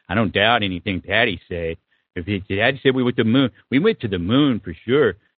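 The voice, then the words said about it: Imitates another person's voice. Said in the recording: “my Sam Harris impression.”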